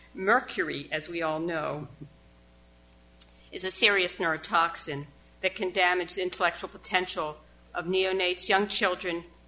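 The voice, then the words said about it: Thick Baltimore accent. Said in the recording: “I have a thick Baltimore accent.”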